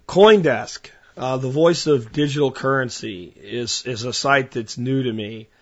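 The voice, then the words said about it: Strained, worn-out voice. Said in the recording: “you can hear my voice is at its limits here”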